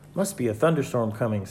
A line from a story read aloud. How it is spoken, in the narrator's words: said Henry